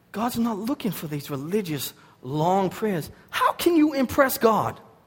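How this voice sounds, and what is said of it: Boston accent. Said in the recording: “my Boston accent and my improper talking”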